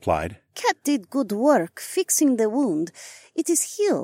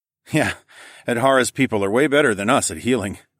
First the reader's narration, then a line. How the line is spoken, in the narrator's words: I chuckled